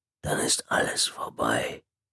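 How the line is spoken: Whispering. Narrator (German): flüsterte er

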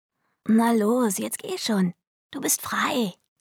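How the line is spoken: Croaked. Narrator (German): krächzte sie

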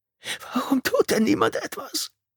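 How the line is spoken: Whimpering. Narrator (German): wimmerte

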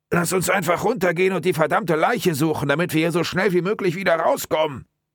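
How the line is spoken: Muffled call. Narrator (German): Durch seinen Hemdsärmel gedämpft, rief Mike seinem Partner zu

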